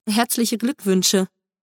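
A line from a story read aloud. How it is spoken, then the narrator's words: Awkward, unsure mumble. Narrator (German): Etwas unsicher murmelte unbeholfen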